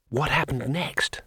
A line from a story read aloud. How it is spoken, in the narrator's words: Said Twoflower breathlessly